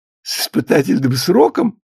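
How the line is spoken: Joyful prompt. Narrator (Russian): радостно подсказал Ефим

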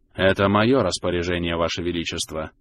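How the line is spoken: Low voice. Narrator (Russian): вполголоса ответил Лаган

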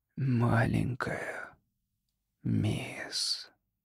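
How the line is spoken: Barely audible whisper. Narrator (Russian): прошептал он так тихо, что никто его не расслышал

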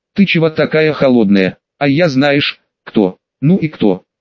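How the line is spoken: Through gritted teeth. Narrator (Russian): Сквозь зубы процедила Эльдарка

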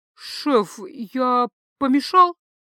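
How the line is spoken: Forced out with difficulty. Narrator (Russian): кое-как выдавил из себя

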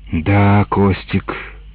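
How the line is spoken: Heavy sigh. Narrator (Russian): сказал он мне и тяжело вздохнул

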